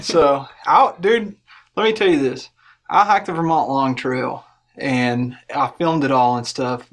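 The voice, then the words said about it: Kentucky Southern American accent. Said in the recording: “that accent ... old fake Kentucky accent”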